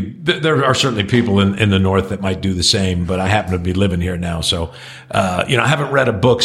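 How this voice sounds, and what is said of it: Usual voice. Nothing is said of it.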